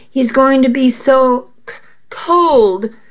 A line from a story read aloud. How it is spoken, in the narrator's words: I stammered, swiping at the tears streaming down my face